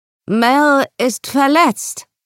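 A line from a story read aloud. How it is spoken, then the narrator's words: Called out. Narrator (German): rief sie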